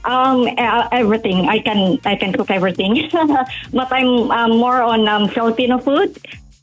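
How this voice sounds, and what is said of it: Foreign-accented English. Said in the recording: “I didn't understand that. Could you say that again with your accent”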